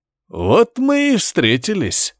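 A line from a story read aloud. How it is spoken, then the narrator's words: Ringing hoarse male voice. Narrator (Russian): произнес мужчина звонким хрипящим голосом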